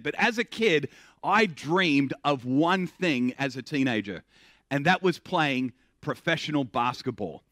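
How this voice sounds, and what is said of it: Australian accent with American influence. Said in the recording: “I have what I call the Russell Crowe version of the accent. Grew up in Australia, just spent a little bit too long in the U.S., and so it's kind of moved in on my Australian accent.”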